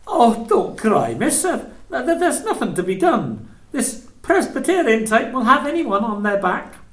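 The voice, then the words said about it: Endearing regional accent. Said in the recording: “your endearing regional accent”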